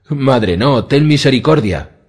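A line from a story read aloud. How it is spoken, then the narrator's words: Shout. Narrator (Spanish): gritó cuando Merryweather lo cogió por el brazo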